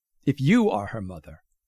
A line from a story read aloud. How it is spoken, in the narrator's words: Schrödinger's Isabel goes on, her voice pointed and sharp, ready to strike